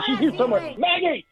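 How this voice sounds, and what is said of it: Yelling frantically. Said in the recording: “yelling like a crazy man”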